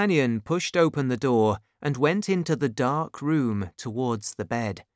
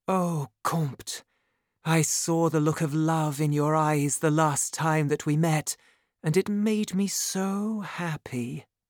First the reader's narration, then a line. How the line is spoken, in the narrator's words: she whispered